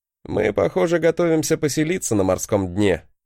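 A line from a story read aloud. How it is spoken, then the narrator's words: Snorting chuckle. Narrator (Russian): хмыкнул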